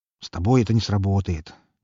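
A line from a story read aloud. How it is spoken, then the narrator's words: Slightly irritated mutter. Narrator (Russian): немного раздраженно пробормотал он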